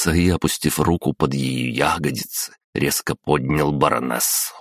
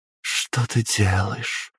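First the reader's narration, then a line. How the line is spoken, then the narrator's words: Barely audible question. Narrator (Russian): спросила она еле слышно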